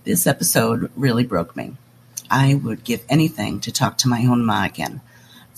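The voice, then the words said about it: Sick, under-the-weather voice. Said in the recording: “Sorry about my voice. A little under the weather.”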